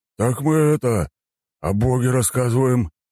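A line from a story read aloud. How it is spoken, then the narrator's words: Warrior mumbling. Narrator (Russian): замямлил воин Ада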